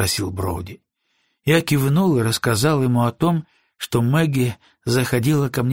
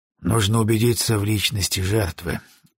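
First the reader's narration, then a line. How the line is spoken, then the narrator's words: Sighing. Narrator (Russian): вздохнул Броуди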